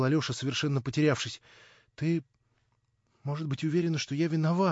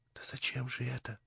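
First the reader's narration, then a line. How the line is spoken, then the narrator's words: Whisper. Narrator (Russian): прошептала Наташа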